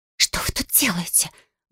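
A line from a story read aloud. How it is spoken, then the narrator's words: Loud exclaimed whisper. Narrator (Russian): громким шепотом воскликнула она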